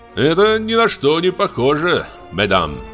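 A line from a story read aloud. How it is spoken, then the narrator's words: Joking tone. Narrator (Russian): сказал я шутливым тоном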